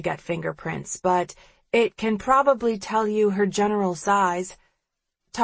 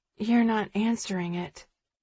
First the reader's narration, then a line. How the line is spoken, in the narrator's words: mumbles Sterling